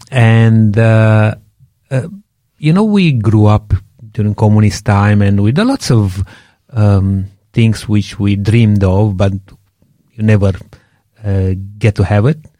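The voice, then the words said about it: Strong Romanian accent. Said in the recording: “I'm from Romania, if people didn't realize yet, with my strong accent.”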